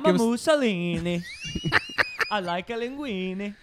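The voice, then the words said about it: Exaggerated put-on Italian accent. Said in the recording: “To get the Italian right to prevent the drift, you just add some A's ... really nail this accent”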